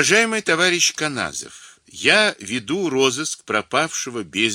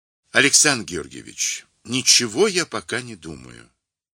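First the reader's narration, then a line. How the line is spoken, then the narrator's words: Gentle, reassuring reply. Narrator (Russian): понимая тревогу Тюнина, мягко ответил Левин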